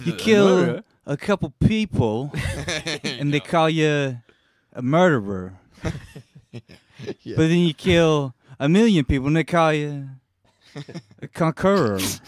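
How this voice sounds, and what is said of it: Imitates another person's voice. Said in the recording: “do a good Christopher Walken impression?”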